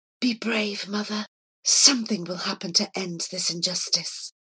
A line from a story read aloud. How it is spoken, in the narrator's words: whisper